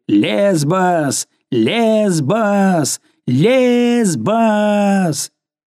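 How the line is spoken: Frenzied crowd yelling. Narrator (Russian): все, обезумев от шума, орали

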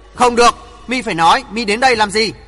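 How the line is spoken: Loud old man. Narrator (Vietnamese): Bắc Cực lão nhân lớn tiếng nói

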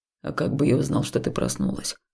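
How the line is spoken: Muttering. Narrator (Russian): пробурчал он

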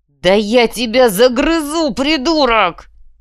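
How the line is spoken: Furious roar. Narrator (Russian): взревел Схинки

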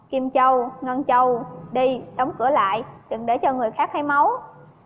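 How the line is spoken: Cold harsh voice. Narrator (Vietnamese): Ngô phu nhân gằn giọng nói

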